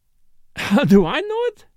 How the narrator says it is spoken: Morel with a laugh

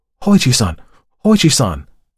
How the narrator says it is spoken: the servants cried

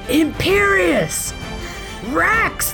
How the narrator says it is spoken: crowd howled back

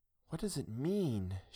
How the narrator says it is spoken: asked in a low tone that was barely audible

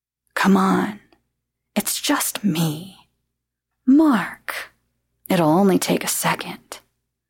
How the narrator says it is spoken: lowered his voice, and insisted

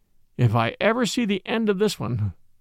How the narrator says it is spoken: groaned

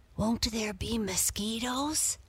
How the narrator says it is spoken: whispered Sam

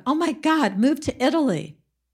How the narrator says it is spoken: without even thinking, JC blurted out

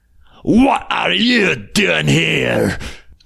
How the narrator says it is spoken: he cried in a very gruff voice

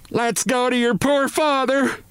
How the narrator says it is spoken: this shout

